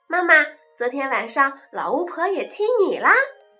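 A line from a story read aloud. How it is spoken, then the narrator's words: Laughing child. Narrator (Chinese): 莎莎笑着说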